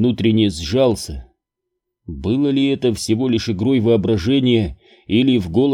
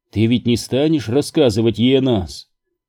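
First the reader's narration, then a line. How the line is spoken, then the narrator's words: Indifferent question. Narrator (Russian): спросила безразличным тоном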